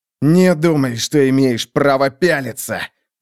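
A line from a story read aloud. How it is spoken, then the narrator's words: Growl. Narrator (Russian): прорычал он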